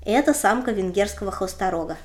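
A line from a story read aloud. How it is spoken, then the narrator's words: Plain. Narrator (Russian): сказал Чарльз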